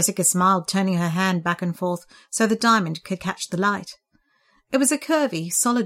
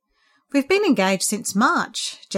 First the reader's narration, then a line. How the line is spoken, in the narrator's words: Jess explained happily